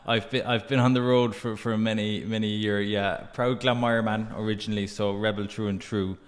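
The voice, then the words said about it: Irish Cork accent. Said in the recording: “do I detect a, a Cork accent in there somewhere?... Firmly, firmly.”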